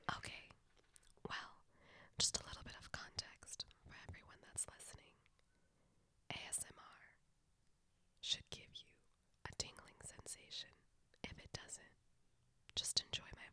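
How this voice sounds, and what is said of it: Soft ASMR-style voice. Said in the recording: “my ASMR voice”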